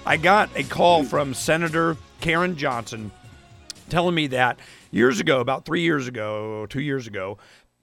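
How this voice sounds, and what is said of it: Worn-out, strained voice. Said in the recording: “my voice is shot”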